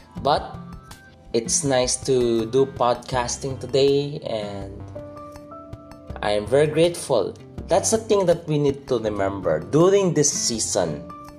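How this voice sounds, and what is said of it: Rough, gravelly recovering voice. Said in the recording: “If there's an improvement in my voice... if I still sound like Oscar the Grouch, Cookie Monster, whatever weird voice I have right now, it means I'm still recovering”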